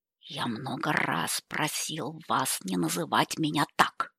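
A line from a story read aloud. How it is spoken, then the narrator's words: Growl. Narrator (Russian): прорычал он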